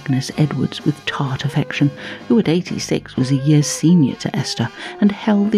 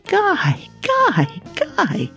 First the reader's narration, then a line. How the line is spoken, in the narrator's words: exclaimed Esther happily in her turn, with a really beautiful pink smile for him